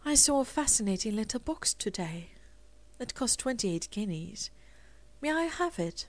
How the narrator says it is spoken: Rosemary said dreamily

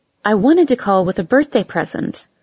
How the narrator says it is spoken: she said

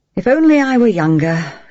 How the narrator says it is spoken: she sighed

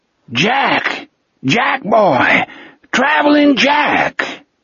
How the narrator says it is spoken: Speedy's voice rose over the washing machine roar of an old flathead 6 engine

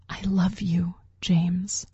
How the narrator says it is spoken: I said, my voice just a whisper

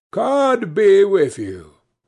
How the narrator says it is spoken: A third time he called out

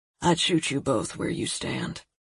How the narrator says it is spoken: he said, his tone pleasant and skimmed with ice

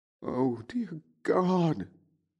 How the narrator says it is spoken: Amelia Williams moaned

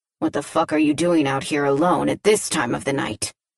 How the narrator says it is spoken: he says, his voice raspy too

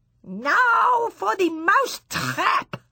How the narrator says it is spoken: the Grand High Witch yelling

